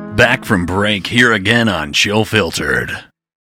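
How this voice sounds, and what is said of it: Polished radio announcer voice. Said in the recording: “That was a great radio voice.”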